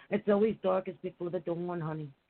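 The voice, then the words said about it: Put-on Jewish accent. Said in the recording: “Let me say it with a Jewish accent.”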